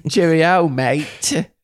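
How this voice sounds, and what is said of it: Put-on British accent. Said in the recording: “throw on an accent ... hold down the British button for the next sentence”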